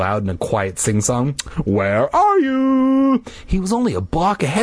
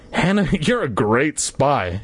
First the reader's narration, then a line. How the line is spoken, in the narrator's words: she laughed